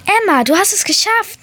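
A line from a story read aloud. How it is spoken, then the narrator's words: Call out. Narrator (German): rief meine erste Letra-Möwe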